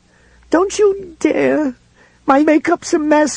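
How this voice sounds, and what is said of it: Wild, crying voice. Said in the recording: “she cried in that same wild voice.”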